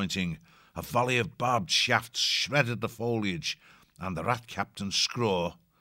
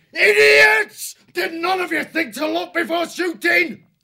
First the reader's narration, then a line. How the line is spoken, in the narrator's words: he yelled